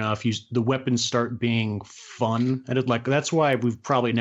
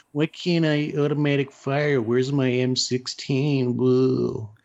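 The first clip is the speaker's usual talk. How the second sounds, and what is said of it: Impression of an average gamer. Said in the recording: “that's my impression ... of ... the average video game player.”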